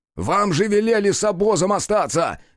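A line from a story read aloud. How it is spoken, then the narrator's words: Shouting while running. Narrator (Russian): крикнул на бегу Рух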